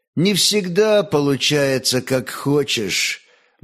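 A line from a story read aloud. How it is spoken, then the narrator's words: Gloomy. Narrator (Russian): мрачно молвил Лемеш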